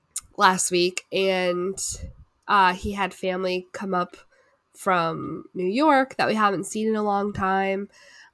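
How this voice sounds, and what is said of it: Sick, ailing voice. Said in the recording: “if you can't tell by my voice, I've been on my deathbed for the last week and a half.”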